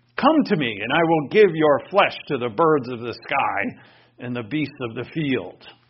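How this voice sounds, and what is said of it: Giant character voice. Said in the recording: “do my best Goliath voice ... like this huge giant of a man”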